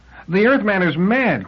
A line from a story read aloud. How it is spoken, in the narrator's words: cried Liebig